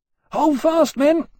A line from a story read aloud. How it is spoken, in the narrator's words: Riggs was yelling by the entrance